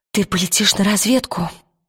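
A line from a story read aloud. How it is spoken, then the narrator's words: Whispering. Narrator (Russian): прошептала она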